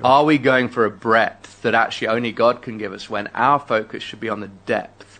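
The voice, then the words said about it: London English accent. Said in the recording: “He's originally from London, hence the accent that you hear.”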